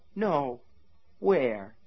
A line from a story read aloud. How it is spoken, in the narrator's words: he asked her tenderly